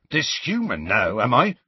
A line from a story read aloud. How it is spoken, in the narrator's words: said Hagrid testily